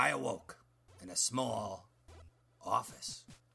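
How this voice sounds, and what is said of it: Usual voice. Nothing is said of it.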